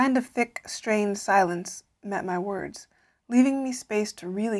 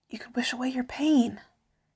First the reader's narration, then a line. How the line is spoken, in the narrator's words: whispered